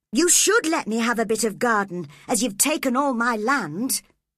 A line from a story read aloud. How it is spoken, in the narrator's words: replied Cathy sharply